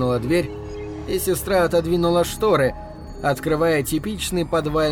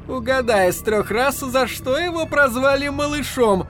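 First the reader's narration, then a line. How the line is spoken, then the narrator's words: Sister bursting with laughter. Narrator (Russian): залилась хохотом сестра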